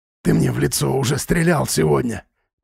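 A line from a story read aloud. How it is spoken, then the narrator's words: Hoarse, strained rasp. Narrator (Russian): прохрипел Тимуров, едва преодолевая жжение во рту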